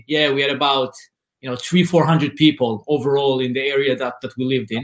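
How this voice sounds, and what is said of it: Israeli-accented English. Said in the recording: “as you hear my accent, I'm originally from Israel”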